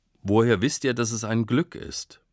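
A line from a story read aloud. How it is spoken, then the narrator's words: Calm farmer speaking. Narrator (German): Der Bauer blieb ruhig und sagte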